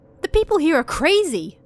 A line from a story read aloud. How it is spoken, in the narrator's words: he screamed, even though there was a guest over at the time